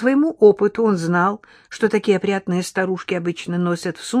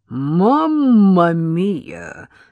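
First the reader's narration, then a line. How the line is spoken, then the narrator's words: Astonished exclamation. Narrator (Russian): воскликнул байкер в изумлении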